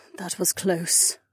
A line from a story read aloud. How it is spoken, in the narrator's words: Kat muttered